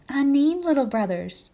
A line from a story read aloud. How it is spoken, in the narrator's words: she said to them kindly